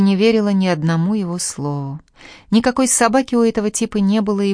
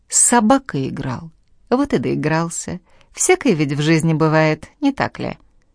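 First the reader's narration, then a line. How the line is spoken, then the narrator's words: Insinuating, after tense pause. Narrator (Russian): Выдержав полную ужаса паузу, следователь вкрадчиво добавил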